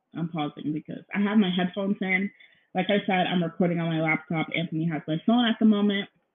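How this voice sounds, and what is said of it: Out of breath, nervous. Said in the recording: “I don't know why I'm out of breath really, because I'm not doing anything, but I'm so nervous”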